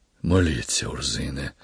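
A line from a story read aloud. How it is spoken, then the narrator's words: Barely audible whisper. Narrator (Ukrainian): ледь чутно прошепотів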